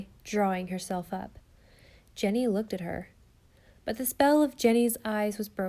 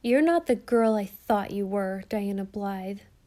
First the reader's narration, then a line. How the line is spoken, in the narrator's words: said Jenny sadly, as one much deceived